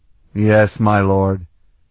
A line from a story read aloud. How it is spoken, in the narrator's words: Colton replied sullenly